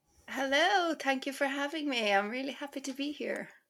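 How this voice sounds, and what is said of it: Irish accent. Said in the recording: “the accent ... Irish ... accent”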